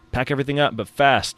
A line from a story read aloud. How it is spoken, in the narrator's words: shouted Ismael, the head of security